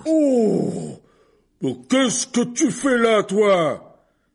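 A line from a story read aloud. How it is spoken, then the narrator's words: Abrupt roar. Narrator (French): rugit-il si brusquement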